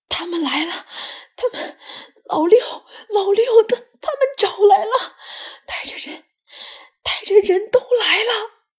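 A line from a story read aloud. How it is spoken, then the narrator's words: Breathless, panting. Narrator (Chinese): 机灵喘着粗气，上气不接下气地说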